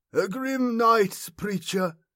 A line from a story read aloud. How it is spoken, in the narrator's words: said Sparkek in his broken, hoarse voice